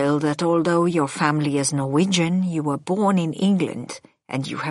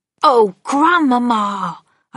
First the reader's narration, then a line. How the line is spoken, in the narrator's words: I cried